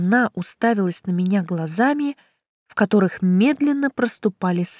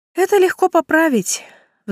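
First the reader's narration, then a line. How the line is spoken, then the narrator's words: Sighing. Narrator (Russian): вздохнув, сказала я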